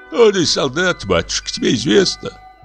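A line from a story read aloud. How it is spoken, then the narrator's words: Weak old voice. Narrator (Russian): ответил слабым голосом старик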